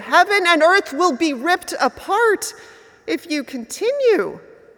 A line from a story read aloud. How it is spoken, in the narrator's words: In desperation, the mighty Shiva pleaded